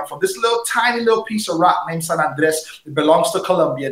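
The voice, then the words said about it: Caribbean, Jamaican-sounding accent. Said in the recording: “you may hear some kind of a Jamaican Caribbean accent in my background”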